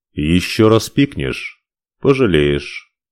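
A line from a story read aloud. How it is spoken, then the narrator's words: Calm. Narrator (Russian): спокойно сказал он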